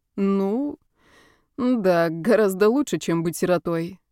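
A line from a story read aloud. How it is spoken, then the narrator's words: Uncertain, smiling. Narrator (Russian): неуверенно улыбнулся он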